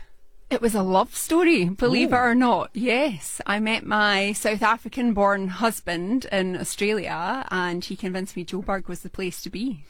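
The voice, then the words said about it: Scottish Glaswegian accent. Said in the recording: “That's a Scottish accent, isn't it? ... It is indeed a Glaswegian accent.”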